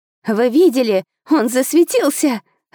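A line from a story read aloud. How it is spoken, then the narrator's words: Joyful squeal, young girl. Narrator (Russian): радостно верещала девчушка лет 9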